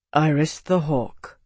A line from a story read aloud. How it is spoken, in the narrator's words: Tavi said quietly